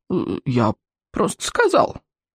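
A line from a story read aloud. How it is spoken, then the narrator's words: Sullen mutter. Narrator (Russian): Сморкало угрюмо буркнул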